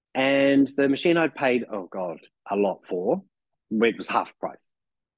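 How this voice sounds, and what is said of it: New Zealand accent. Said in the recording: “here's my New Zealand accent now coming out”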